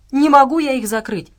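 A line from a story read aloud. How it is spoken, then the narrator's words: Girl shouting. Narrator (Russian): крикнула девочка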